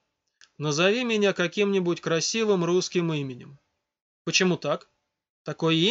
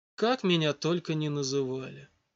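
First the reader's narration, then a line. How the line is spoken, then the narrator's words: Tired reply. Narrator (Russian): устало ответил голос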